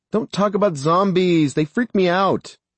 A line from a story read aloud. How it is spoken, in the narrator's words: Little Bit shouted